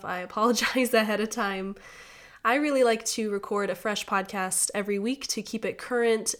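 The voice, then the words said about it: Voice sounds off, sick. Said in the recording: “my voice is a little off today. I've been under the weather for the last week ... that's why my voice is off ... your voice sounds very interesting”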